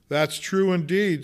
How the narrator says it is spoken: said the laundress

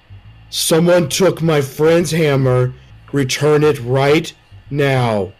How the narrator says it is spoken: say loudly

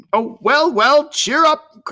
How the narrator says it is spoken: cried Uncle Jack

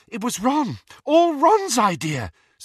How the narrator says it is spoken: said Hermione breathlessly

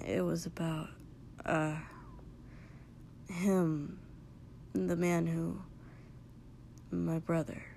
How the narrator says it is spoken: because he remembered that Izuku had been there the night he'd had to tell Katsuki about Dobby, he muttered

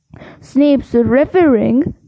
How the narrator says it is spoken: spluttered through a mouthful of mud

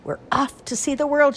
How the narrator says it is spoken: cried

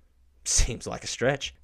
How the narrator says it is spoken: Jude scoffs

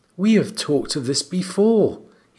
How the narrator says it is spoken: he said gently

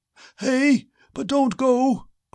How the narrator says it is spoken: cried the old man

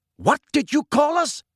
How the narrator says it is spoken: shouted a wild-looking black centaur, whom Harry recognized as Bane

